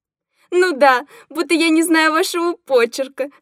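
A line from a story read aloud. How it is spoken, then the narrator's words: Guffawing with affected squeals. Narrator (Russian): хохотала девица, манерно взвизгивая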